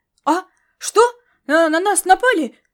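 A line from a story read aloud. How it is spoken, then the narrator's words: Startled waking exclamation. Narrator (Russian): воскликнул землянин, выпадая из сладкого забытья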